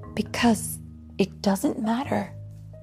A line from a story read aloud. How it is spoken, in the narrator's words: she sighed